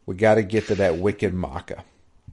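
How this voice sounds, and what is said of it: Exaggerated bad Boston accent. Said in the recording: “It sounds like someone doing a really bad Boston accent.”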